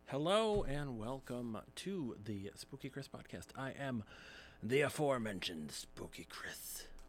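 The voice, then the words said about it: Radio announcer voice. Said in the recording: “It's my radio voice”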